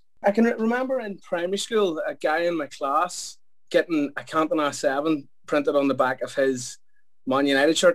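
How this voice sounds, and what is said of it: Belfast accent. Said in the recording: “I'm from Belfast, in case the accent hasn't told you that yet.”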